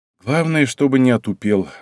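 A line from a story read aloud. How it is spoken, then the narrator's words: Sigh. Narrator (Russian): вздохнул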